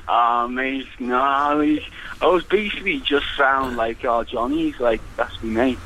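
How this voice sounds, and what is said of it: Liverpool accent. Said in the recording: “it sounds like you're from Liverpool”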